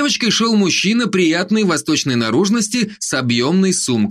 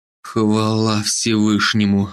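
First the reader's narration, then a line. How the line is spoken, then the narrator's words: Relieved exhale. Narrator (Russian): выдохнул Северский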